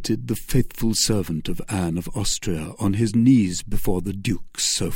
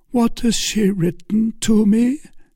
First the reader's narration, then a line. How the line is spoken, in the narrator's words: said Buckingham feebly, streaming with blood and suppressing his agony